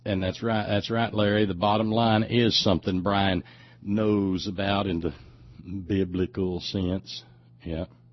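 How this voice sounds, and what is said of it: Put-on cornpone Southern accent. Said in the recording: “can I ditch the cornpone accent now, please? ... It begins to stick after a while.”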